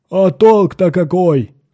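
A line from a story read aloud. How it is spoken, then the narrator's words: Robot shouting. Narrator (Russian): крикнул робот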